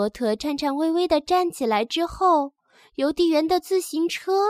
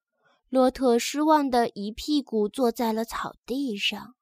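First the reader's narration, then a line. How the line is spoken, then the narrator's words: Murmuring. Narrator (Chinese): 邮递员喃喃地说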